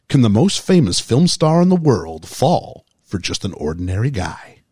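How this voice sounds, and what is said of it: Movie trailer announcer voice. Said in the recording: “my movie guy voice”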